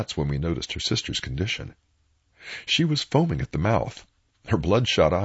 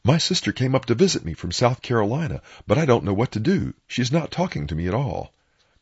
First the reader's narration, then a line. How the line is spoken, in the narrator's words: The lady who was doing the holding said, while gasping for air